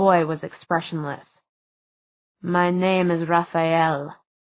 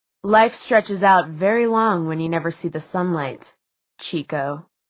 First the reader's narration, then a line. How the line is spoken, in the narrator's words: said Jace